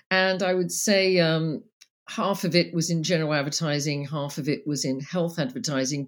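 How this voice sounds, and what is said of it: Speaks with a non-local accent. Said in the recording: “don't let my accent fool you”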